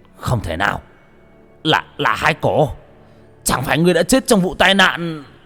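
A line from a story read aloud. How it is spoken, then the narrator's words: Shocked yell. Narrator (Vietnamese): Thành Dương hét lên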